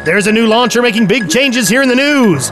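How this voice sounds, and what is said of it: News anchor voice. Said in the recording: “do the news voice”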